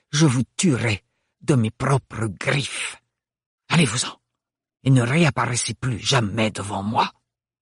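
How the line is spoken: Hissed. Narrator (French): avait sifflé Bérénilde

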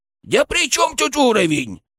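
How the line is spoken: Indignant snort. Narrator (Russian): он возмущенно фыркнул

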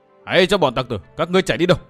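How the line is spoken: Shouting. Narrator (Vietnamese): hét

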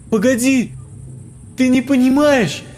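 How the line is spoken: Shouting while running. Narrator (Russian): На бегу кричала Ксюша

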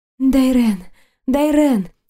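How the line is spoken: Breathless overwhelmed exhale. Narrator (Russian): выдохнула, ощущая, как подбираюсь к границе чего-то глубокого и всепоглощающего

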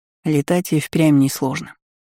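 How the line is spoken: Smiling. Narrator (Russian): улыбнулся Вальгард

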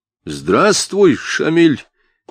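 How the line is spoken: Loud shout covering mockery. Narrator (Russian): крикнул, как бы заглушая насмешку, прозвучавшую в приветствии

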